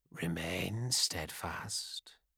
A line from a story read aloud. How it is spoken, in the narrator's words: he whispered